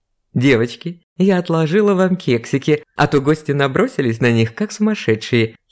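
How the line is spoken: Giggling. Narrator (Russian): хихикнула Наталья

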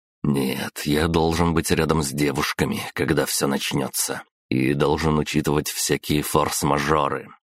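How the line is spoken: Plain. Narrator (Russian): ответил я ей

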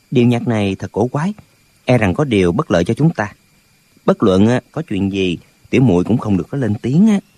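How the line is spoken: Soft whisper in ear. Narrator (Vietnamese): Lệnh Hồ Xung nói khẽ vào tai Nghi Lâm

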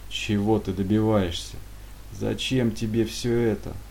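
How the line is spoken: Weary question. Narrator (Russian): устало спросил разведчик

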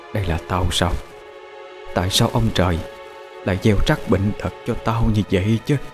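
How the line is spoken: Soft then screaming, coughing. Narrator (Vietnamese): Lúc đầu mụ còn nói chuyện nhỏ nhẹ, nhưng sau đó càng ngày mụ càng hét to lên, hét đến nỗi ho sặc sụa

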